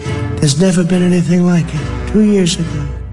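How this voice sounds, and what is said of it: Weird kid's-storybook reading voice. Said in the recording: “Just picture someone reading a storybook, right now, like a kid's storybook, because the voice goes into that sort of mode ... doing a really weird voice.”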